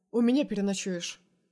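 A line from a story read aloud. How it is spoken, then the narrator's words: Calm statement. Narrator (Russian): заявляет спокойно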